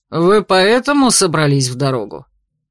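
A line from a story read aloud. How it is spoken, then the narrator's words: Snort, then asking. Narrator (Russian): Райран хмыкнул и уточнил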